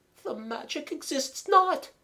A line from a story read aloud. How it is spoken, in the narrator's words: Mademoiselle moaned